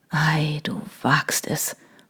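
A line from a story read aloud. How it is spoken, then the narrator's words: Whispered. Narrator (German): flüsterte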